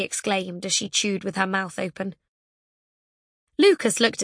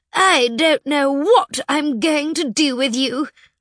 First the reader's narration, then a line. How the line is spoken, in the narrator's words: Princess Pulverizer replied, doing her best imitation of her teacher